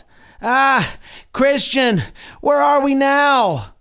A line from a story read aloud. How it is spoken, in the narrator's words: Pliable cried out